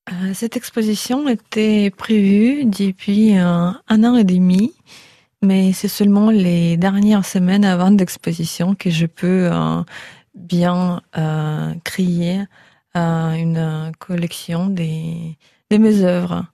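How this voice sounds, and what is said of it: Slight Russian accent in French. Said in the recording (French): “d'origine russe, ce qui explique votre petit accent.”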